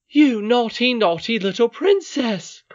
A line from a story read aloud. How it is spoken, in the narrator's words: cried Ludi